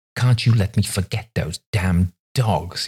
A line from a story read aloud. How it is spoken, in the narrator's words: he snapped